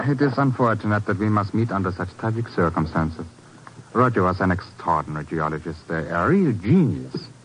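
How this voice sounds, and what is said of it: Czech accent, mistaken for German. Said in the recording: “Herr Zucklin. ... I see my accent has betrayed me again. But you see, I am not German, Mr. Thurston, no. I am a Czech.”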